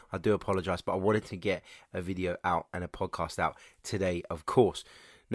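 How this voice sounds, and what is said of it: Congested, blocked-nose voice. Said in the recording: “Apologies in advance um, regarding my voice. I've got, I don't know if I've got a cold, I don't know if I've got hay fever ... but I am as bunged up as they come.”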